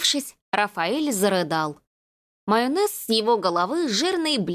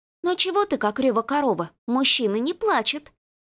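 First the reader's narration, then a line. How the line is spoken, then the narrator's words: Deliberately loud. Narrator (Russian): Нарочито громко произнесла Рената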